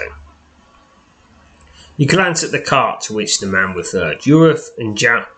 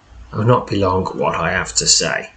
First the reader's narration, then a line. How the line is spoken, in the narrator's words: he says